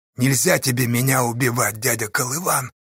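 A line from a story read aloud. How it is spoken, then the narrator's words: Sudden hoarse whisper. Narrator (Russian): Вдруг опять хрипло зашептал Осташа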